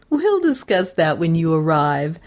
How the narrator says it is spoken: interrupted the girl, laughing

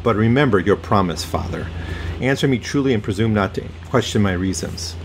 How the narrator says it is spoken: answered gravely

